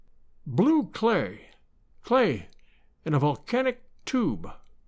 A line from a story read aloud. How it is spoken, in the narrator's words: I heard him mutter to himself